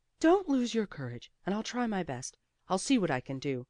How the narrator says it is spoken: he said in a very decided tone, and with a most courageous air

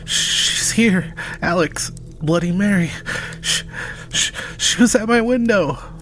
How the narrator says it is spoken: Thomas, panting heavily, stammered

